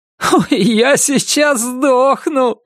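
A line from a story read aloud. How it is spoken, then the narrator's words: Laughing. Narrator (Russian): смеялся Норрис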